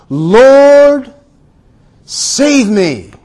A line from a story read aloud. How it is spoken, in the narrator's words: he was afraid and beginning to sink, cried out